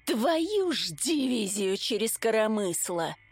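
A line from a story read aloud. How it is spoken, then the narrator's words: Breathed out. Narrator (Russian): выдохнула я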